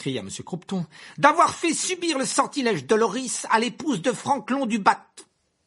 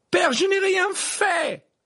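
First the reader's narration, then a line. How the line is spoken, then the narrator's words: Boy's shrill cry. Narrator (French): s'écria le garçon d'une voix perçante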